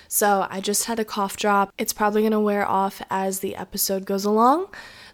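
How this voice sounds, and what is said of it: Slightly raspy voice. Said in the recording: “my voice is a little bit raspy. ... if I gradually start sounding like a 40-year-old smoker ... I had a little bit of a sore throat”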